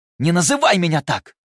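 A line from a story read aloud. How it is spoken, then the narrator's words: Barked. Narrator (Russian): рявкнул Луций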